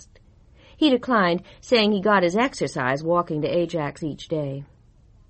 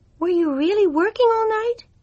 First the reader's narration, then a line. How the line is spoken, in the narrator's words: Jill asked in a worried voice